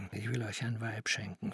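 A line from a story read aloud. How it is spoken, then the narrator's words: Whisper. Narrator (German): flüsterte er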